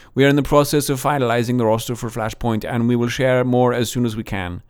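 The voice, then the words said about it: Put-on Danish accent. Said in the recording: “That's not a bad Danish accent, I have to admit.”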